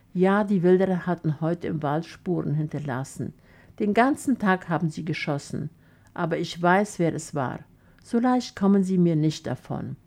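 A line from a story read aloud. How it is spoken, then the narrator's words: Sighing. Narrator (German): Stefan seufzte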